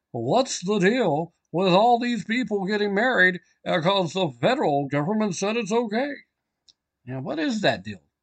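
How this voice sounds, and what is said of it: Poor imitation of another person's voice. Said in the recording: “my Jerry Seinfeld impersonation. It's not a very good one. ... I told you it was a bad one.”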